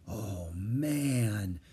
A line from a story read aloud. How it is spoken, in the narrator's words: he breathed